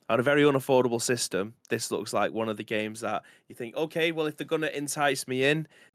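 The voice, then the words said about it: Strained, damaged-sounding voice. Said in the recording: “My voice is fucked.”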